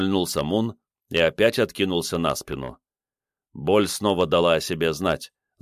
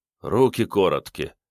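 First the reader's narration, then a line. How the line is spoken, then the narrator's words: Grim smirk. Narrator (Russian): мрачно ухмыльнулся Мунлайт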